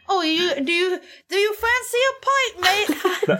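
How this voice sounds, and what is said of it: Poorly imitated accent, switching dialects. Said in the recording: “I don't like it when people imitate my accent. ... it's not a good job. You kind of switched between different dialects there.”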